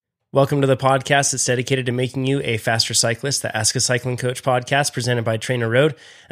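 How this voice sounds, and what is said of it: Voice affected by illness. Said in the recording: “I apologize for the voice. I'm a little under the weather this week.”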